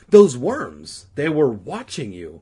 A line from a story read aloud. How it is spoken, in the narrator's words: Regina exclaimed